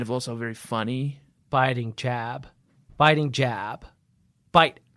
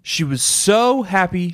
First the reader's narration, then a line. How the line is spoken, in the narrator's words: she cried